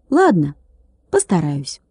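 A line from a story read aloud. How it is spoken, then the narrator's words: With a furtive sigh. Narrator (Russian): Владик вздохнул украдкой и сказал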